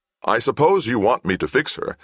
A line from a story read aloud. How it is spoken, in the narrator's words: Isaac said